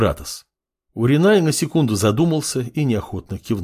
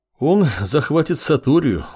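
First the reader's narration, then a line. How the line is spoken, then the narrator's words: Sighing. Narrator (Russian): вздохнул Уринай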